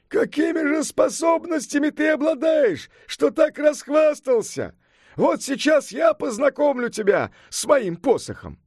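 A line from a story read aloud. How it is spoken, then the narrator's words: Furious yell. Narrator (Russian): Яростно заскрежетав зубами, заорал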